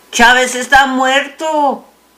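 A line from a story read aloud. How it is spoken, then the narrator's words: Shout. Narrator (Spanish): gritaba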